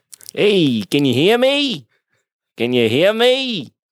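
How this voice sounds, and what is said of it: Impression of a co-host. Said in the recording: “almost a solid impersonation of you”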